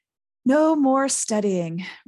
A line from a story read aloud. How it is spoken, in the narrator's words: Ron sighed happily